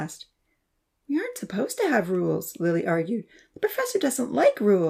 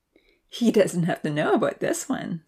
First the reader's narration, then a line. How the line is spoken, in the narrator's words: Santa laughed